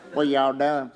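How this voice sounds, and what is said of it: Kentucky country accent. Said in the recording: “by the time we get halfway up 75 into Kentucky, this accent comes out”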